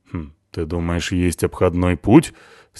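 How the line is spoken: Skeptical snort. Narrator (Russian): скептически хмыкнула Натаха

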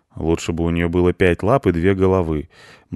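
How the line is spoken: Gloomy reply. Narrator (Russian): мрачно ответил кот

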